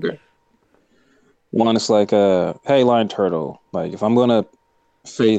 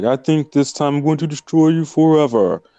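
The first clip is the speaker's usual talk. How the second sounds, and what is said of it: Imitates a character's voice. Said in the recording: “your Fatu impression,⟧ spot on”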